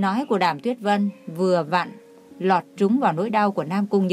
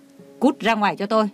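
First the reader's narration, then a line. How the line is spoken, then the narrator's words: Angry shouting. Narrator (Vietnamese): Ông tức giận gào lên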